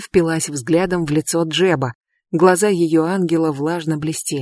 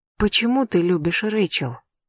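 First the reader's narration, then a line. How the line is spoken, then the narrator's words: Deep sigh. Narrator (Russian): Джеб глубоко вздохнул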